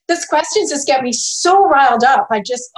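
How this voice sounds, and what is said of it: Shouting, riled-up voice. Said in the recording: “I'm shouting.”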